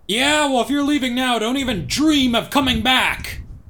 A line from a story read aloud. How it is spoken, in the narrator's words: James shouted